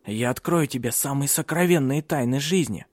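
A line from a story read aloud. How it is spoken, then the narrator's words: Whispering. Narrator (Russian): шептал он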